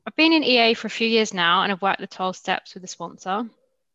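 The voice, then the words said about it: Mixed British-Australian accent. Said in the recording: “I'm from Australia, but I live in the UK, so I have a mixed British-Australian accent.”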